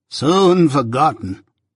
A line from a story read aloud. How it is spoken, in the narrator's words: moaned Miss Havisham